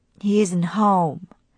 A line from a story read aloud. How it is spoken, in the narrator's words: sighed Wade